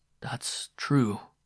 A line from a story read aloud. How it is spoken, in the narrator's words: Miron muttered